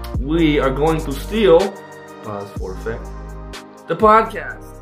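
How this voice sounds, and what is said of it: Gru character voice from Despicable Me. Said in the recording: “doing that groove voice from Despicable Me”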